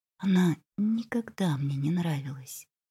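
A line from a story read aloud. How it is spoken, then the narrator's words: Sudden whisper. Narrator (Russian): Женщина вдруг прошептала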